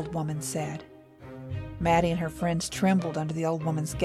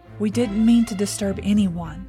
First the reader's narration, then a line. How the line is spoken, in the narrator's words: she said, her voice trembling but firm